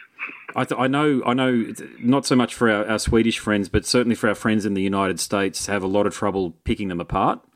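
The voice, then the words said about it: Australian accent. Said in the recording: “they found my accent very interesting, put it that way, compared to the English and the American accent ... I was the first Australian that they'd ever spoken to”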